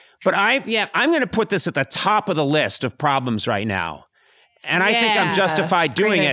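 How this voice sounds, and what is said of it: Usual voice. Nothing is said of it.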